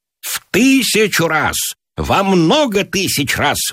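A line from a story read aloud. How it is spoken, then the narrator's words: Shouted out. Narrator (Russian): выкрикнул Гиберн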